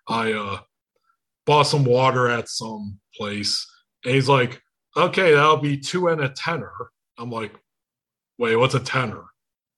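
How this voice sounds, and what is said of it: Unusual, not very American accent. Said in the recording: “I have this wonderful little accent ... in England, they think I'm from Norway ... you don't have the most American accent I've ever heard”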